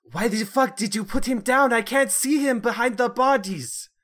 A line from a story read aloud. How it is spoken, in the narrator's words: the lady at the front yell out